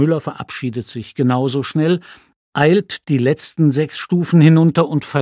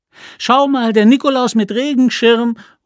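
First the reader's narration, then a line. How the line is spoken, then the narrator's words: Child calling after. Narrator (German): ruft ein Kind hinterher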